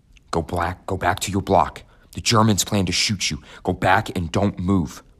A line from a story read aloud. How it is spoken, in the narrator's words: some prisoners who whispered to us